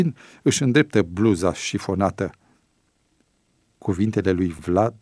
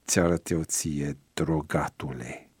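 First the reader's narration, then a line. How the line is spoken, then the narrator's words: Gritting teeth, threatening. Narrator (Romanian): scrâșni printre dinți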